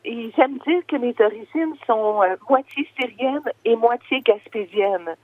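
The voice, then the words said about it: Québécois French accent. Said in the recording (French): “je suis née au Québec, comme on peut peut-être le deviner avec mon accent.”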